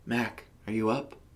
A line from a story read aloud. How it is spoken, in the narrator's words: She asked in a hushed tone